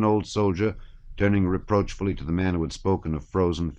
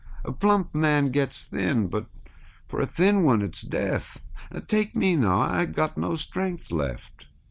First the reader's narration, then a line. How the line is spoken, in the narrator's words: said the sharp-nosed man they called Jackdaw in a squeaky and unsteady voice